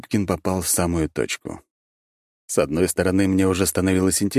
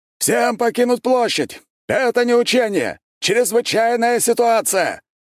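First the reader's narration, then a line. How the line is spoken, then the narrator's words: Guard shouting. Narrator (Russian): крикнул один из стражников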